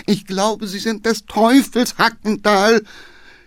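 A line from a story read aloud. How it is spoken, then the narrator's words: Groaning from behind. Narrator (German): stöhnte der Geheimrat hinten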